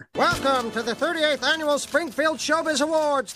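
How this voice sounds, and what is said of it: Announcer with transatlantic accent. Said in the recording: “an announcer with a transatlantic accent”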